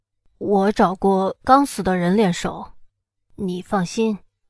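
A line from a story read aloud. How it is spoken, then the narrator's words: Apologetic. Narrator (Chinese): 他……歉然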